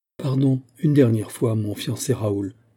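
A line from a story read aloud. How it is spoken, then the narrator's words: Plain. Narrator (French): dit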